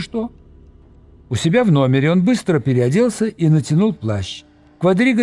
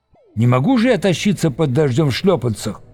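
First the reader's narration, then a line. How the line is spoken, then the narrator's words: Angry reply. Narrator (Russian): сердито отозвался Виктор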